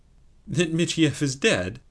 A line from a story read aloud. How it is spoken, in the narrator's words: re-echoed Sobakevitch, coming perilously near to laughing